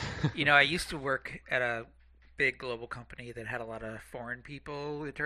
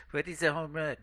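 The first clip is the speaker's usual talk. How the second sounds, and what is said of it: Put-on French accent. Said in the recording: “Oh, great accent too.”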